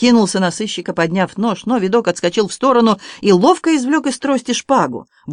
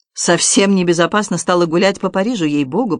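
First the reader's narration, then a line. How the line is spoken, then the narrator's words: Grumbled. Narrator (Russian): проворчал Видок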